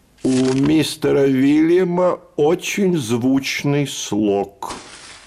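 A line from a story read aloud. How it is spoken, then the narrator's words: Gloomy. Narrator (Russian): сказал он уныло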